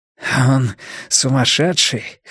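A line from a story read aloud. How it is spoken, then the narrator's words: Hoarse. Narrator (Russian): хрипло сказал Блор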